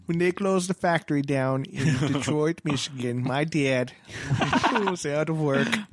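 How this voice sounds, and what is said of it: Imitates another person's voice. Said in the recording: “Should sound more like Michael Moore.”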